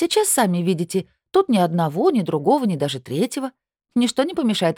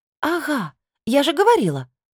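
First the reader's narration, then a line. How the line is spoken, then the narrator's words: Exclamation. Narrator (Russian): воскликнула я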